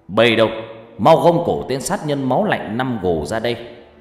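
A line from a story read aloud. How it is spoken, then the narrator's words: Sudden loud shout. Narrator (Vietnamese): Quan bỗng hét lớn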